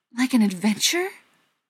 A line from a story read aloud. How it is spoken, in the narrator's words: gasped Frodo